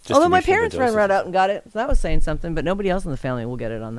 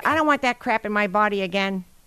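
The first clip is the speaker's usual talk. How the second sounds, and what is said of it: Imitates another person's voice. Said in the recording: “That's my impersonation of her ... That was really good. I heard her.”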